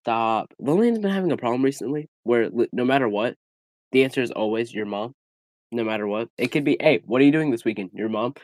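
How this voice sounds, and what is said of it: Nasal, congested voice. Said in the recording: “I sound nasally, it's because I'm sick”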